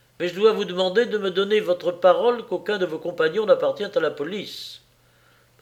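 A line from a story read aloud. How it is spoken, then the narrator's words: Abrupt tone. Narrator (French): dit-il d'un ton brusque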